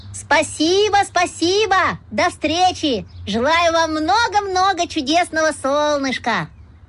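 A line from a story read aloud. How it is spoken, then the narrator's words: Shouted. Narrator (Russian): Веснушка крикнул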